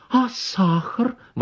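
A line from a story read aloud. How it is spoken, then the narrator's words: Exclaiming. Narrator (Russian): воскликнула Анна Николаевна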